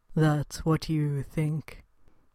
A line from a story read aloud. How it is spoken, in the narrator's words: Marvin muttered